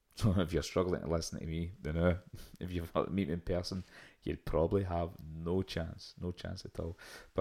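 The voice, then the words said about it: Glaswegian accent, slightly toned down. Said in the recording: “my very thick Glaswegian accent ... this is me putting on my telephone voice ... I'm usually a lot faster and my accent's a lot thicker”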